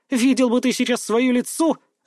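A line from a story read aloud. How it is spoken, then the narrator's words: Sudden burst of laughter. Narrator (Russian): расхохоталась вдруг она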